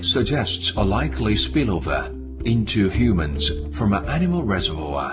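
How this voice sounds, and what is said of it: Heavy accent, sounds almost computerized. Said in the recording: “I thought it was a computer voice at first, but it's not. You can tell. It's actually just someone's bad accent.”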